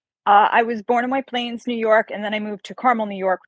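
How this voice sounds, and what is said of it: New York accent. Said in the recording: “as you can hear from the accent, as my friends all tell me I have an accent, ... I'm from New York”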